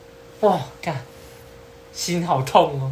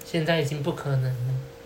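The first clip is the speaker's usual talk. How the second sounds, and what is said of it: Cold, flat voice. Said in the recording (Chinese): “突然变冷冷的声音说”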